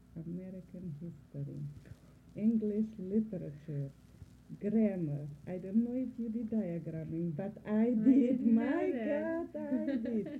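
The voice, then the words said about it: Speaks with a non-native accent. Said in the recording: “the accent is there and it will be there always ... the accent just adds to the charm of the individual”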